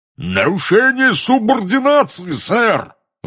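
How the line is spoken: Roar, stout wizard. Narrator (Russian): взревел дородный красноносый волшебник

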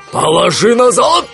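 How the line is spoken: Roaring robber. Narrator (Russian): взревел один из разбойников

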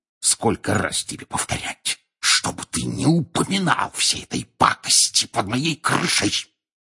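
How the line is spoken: Angry hiss. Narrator (Russian): прошипел он

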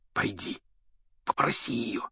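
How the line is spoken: Whispered. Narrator (Russian): шепнул Рон

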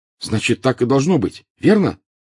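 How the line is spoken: Fervent exclamation. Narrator (Russian): горячо воскликнул Гарри

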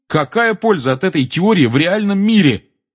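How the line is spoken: Loud speaking. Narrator (Russian): громко подал голос Гарри

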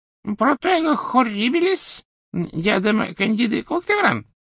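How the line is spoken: Shrill squeak. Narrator (Russian): визгливо пропищал Флитвик

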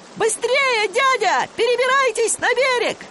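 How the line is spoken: Happy shout. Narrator (Russian): Ребята были очень довольны, и Билли закричал

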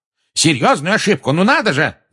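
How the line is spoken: Yelling. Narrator (Russian): заорал Фадж

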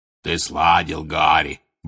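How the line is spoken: Deep booming voice. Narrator (Russian): басил Хагрид

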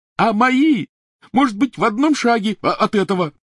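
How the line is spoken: Shrieked. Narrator (Russian): завизжал Рон

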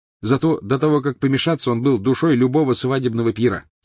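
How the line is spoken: Plain. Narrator (Russian): сказал Фред

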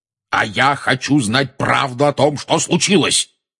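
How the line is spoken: Roared. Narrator (Russian): проревел дядя Вернон

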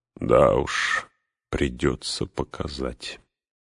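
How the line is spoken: Very quiet, strange smile. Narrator (Russian): очень тихо проговорил фармер со странной улыбкой

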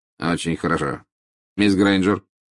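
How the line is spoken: Curt. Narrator (Russian): сказал отрывисто

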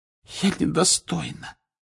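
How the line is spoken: Hoarse voice. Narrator (Russian): хриплым голосом проговорила Флер

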